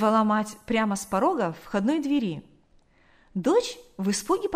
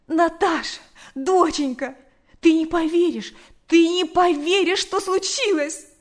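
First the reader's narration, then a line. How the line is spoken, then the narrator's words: Rambling on. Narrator (Russian): Она говорила и говорила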